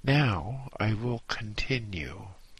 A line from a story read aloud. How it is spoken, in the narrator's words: he sighed deeply and said